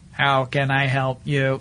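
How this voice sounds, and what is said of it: Robot voice. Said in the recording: “my robot voice is, you know, of course, like”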